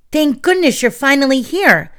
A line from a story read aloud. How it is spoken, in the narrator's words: Tink exclaimed